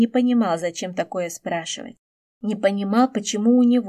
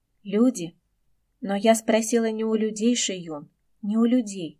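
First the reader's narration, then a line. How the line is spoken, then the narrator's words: Sighing female performer. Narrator (Russian): вздохнула циркачка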